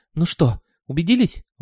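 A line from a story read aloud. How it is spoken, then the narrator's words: Exclaiming. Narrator (Russian): воскликнул он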